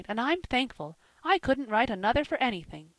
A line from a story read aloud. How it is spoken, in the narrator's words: she cried